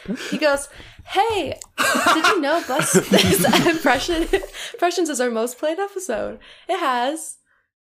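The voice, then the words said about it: Imitates another person's voice. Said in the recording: “You're doing a great Alec impression right now”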